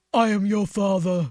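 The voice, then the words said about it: Darth Vader impression. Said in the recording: “my impression. ... I thought he was in the room.”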